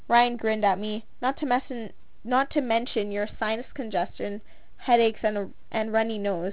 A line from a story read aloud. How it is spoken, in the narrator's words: he laughed